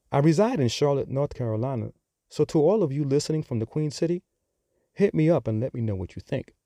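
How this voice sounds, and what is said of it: New York accent. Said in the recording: “by now, I'm sure that you have picked up on my accent. So, yes, I am from New York.”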